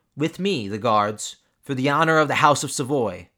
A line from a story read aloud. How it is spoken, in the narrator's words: the Duke called out to his men